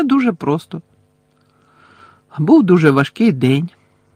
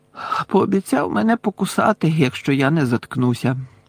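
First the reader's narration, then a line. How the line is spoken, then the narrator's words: Sad. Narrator (Ukrainian): сумно сказав містер Візлі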